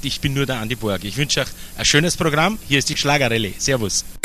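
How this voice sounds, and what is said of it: Speaks with a regional German dialect. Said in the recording (German): “was hat der denn für ein Dialekt?”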